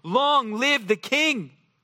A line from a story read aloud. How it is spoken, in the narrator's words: all the people shouted and said